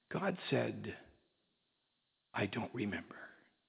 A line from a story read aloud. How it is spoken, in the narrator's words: The woman hesitated for just a moment, then softly answered